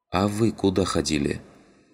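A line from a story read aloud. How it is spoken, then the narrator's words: Quiet question. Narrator (Russian): тихо спросила сидящая в углу Родька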